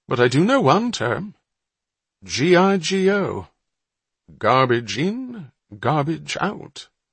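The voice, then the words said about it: Plummy upper-class British accent. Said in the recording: “his plummy accent filling the air”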